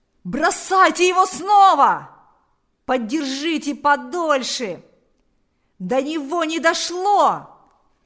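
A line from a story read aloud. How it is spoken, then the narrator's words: Several voices shouting. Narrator (Russian): закричали несколько голосов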